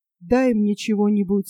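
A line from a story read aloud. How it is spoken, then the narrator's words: Plain. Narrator (Russian): сказал Юрий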